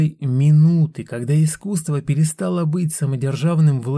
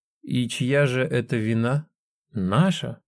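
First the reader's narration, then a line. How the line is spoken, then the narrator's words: Indifferent curt remark. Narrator (Russian): Яцек безразличным тоном бросил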